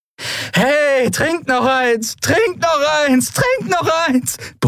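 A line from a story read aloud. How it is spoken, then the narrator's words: Bellowed. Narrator (German): brüllte sie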